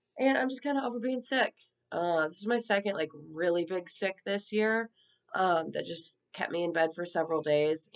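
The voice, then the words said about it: Sick-sounding voice. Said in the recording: “I'm still sick ... we still have some lingering symptoms, which you can probably hear in my voice.”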